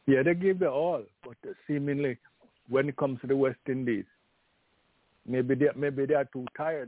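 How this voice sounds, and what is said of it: Voice sounds a little unwell. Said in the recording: “My voice is a little under the weather”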